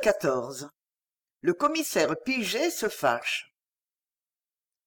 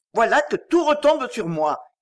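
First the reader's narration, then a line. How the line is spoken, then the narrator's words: Shouting. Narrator (French): criait ce dernier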